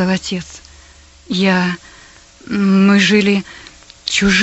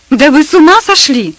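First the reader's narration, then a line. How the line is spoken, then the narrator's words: Exclamation. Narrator (Russian): Воскликнула Персида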